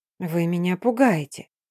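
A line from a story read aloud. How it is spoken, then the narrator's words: Quiet and direct. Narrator (Russian): тихо и прямо произнесла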